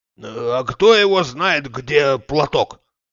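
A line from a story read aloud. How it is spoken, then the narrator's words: Grumbling. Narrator (Russian): ворчал он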